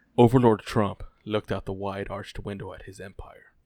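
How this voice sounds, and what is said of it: Storybook narrator voice. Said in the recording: “get in my narrator voice”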